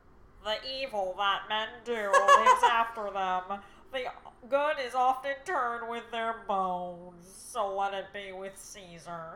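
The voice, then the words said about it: Squidward impression. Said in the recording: “Squidward.”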